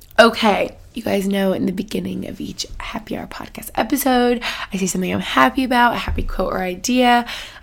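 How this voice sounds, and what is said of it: Nasal, congested voice. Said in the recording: “my just voice sounds so bad and like nasally and congested this episode”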